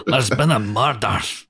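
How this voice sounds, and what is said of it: Put-on Scottish accent. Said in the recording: “the Scottish accent”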